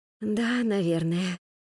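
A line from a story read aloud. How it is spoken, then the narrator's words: Whispered. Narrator (Russian): прошептала Вероника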